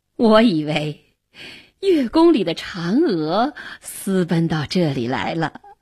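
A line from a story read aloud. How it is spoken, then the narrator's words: Smiling, playful. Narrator (Chinese): 元帝笑着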